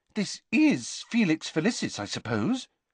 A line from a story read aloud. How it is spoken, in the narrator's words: said Hermione anxiously